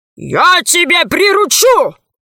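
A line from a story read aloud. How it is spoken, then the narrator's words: Dragon's roar. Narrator (Russian): рявкнул дракон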